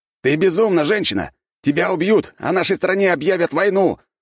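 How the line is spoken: Shouted. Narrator (Russian): выкрикнул стражник

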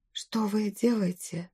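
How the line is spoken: Whispered. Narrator (Russian): зашептала я

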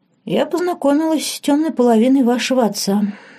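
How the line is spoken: Sighing. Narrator (Russian): вздохнула Лорен

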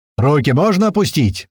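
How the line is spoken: Loud shout. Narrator (Russian): громко крикнул я

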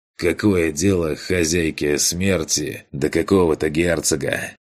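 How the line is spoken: Tired question. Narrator (Russian): Устало поинтересовался Эдгар

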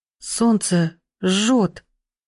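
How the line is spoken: Whimpering. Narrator (Russian): Захныкала она

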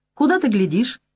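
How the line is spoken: Innocent tone. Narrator (Russian): невинным тоном спрашивает Маня

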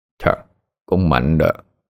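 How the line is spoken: Muttered. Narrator (Vietnamese): miệng hắn lẩm bẩm

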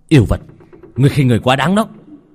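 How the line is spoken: Angry, through gritted teeth. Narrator (Vietnamese): Lô Tiểu Bắc nghiến răng giận dữ

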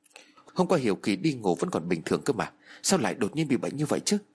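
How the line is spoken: Muttering. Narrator (Vietnamese): Trong miệng của tôi lẩm bẩm

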